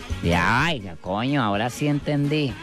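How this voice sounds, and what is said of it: Put-on Venezuelan accent, sounds odd. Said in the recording (Spanish): “le metió un venezolano ... Ese acento me parece como raro”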